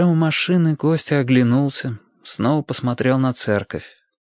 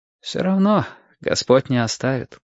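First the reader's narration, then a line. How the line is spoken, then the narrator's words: Sighed, priest. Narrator (Russian): вздохнул священник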